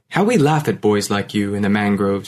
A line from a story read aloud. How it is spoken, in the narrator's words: he said